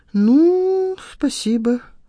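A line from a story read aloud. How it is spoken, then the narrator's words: Drawling. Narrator (Russian): протянула Надежда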